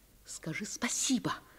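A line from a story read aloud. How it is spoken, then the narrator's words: Dramatic whisper, mother. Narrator (Russian): прошептала мама драматическим шепотом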